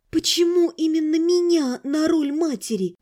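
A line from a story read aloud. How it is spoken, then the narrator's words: Moaning. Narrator (Russian): Уже не проговорила, а скорее простонала я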